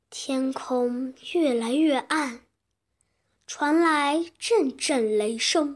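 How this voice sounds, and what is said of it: Usual voice. Nothing is said of it.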